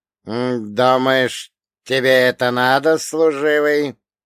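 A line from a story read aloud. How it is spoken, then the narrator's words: Creaky voice. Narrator (Russian): проскрипел Вольга Богданович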